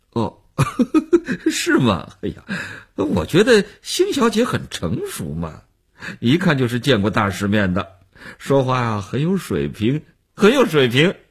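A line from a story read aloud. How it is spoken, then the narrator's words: Laughing, flattering. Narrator (Chinese): 那男人笑着做分析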